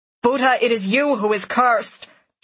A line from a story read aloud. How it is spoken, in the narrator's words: Tarek shouts, his voice carrying half as far as hers